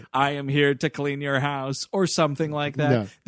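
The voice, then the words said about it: Robot voice. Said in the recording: “doing a robot voice”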